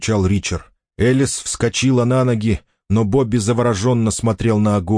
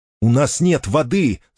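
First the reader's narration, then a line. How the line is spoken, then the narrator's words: Shouted reply. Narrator (Russian): закричал в ответ Бобби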